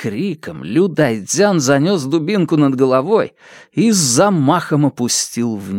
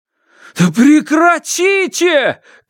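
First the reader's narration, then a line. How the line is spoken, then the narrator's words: Terrified shout while struggling. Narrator (Russian): крикнул Фанму в ужасе, пытаясь вырваться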